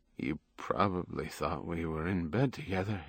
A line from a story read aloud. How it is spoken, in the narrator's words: he said weakly